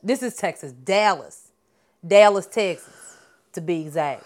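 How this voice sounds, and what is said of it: Put-on white Southern belle accent. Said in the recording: “That's my southern accent. ... You sound like a white Southern lady. ... that's what a Southern belle is supposed to sound like”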